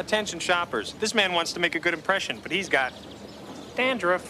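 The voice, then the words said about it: Silly put-on announcer voice. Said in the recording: “In that voice. Will you stop speaking in that stupid, funny voice all the time?”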